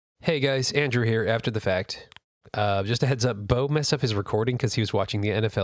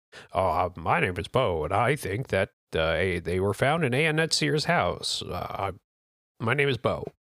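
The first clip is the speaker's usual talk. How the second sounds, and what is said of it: Imitates another person's voice. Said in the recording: “I'll do my best Bo impression.”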